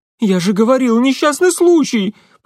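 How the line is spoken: Near squeal. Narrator (Russian): почти взвизгнул он

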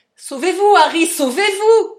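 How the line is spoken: Shouted. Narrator (French): cria-t-il

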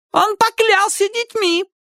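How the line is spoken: Shrill woman's voice. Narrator (Russian): визгливо сказала женщина

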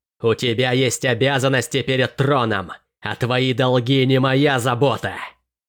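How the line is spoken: Angry growl. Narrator (Russian): Она уже рычала, давая волю гневу

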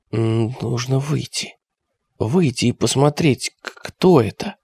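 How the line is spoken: Whispered. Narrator (Russian): Константинов прошептал

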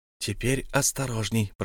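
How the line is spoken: Whisper. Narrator (Russian): прошептал хоббит

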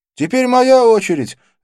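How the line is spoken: Shouting. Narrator (Russian): закричал Арджун

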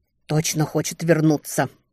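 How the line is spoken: Muttered. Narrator (Russian): буркнула Летиция

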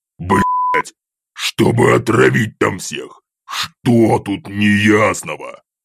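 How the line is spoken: Growled reply. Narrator (Russian): прорычал в ответ

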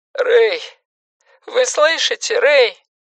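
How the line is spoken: Tired nasal voice. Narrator (Russian): проговорил усталый гнусавый голос

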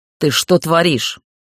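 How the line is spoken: Growl. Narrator (Russian): прорычал Иртхан

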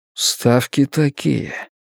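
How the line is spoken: Flat colorless voice. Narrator (Russian): продолжал все тем же бесцветным голосом

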